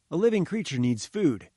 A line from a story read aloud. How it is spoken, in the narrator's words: I said